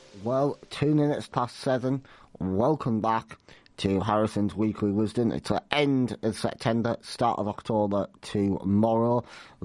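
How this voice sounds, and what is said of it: Sick, congested voice. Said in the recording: “as you can probably tell by my voice, I have been inflicted with thrushes. Flu, cold”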